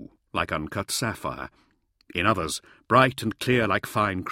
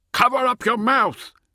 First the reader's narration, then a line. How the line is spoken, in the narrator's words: he shouted